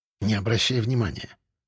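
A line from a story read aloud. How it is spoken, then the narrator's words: Whisper. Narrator (Russian): шепнул я эксперту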